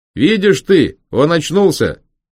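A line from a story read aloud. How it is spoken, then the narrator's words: Very loud, coachman speaking. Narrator (Russian): очень громко и, помогая себе жестами, заговорил возница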